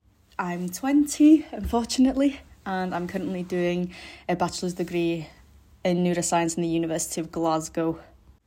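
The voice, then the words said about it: North Welsh accent. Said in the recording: “I'm from the north of Wales. You can hear by this fucking howl of an accent”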